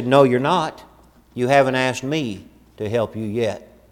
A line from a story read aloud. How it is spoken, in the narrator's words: The father gently placed his hand upon his boy's shoulder, and he said